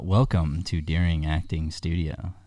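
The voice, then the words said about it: Deep, silky smooth voice like Jon Hamm. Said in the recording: “deep voice? ... the silky smooth voice ... It's like butter. ... very Jon Hamm.”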